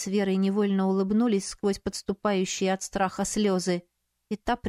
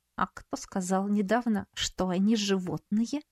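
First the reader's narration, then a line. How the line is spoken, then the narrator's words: Snide, through clenched teeth. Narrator (Russian): Света сквозь зубы ехидно процедила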